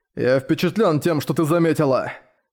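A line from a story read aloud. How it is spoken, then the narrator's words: Gloomy. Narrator (Russian): сказал мрачно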